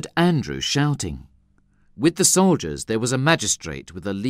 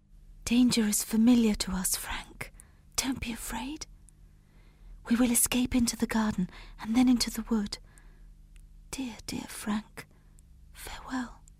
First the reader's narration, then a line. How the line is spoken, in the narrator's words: She whispered